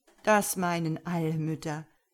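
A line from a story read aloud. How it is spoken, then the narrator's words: Man laughing. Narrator (German): sagte der Mann und lachte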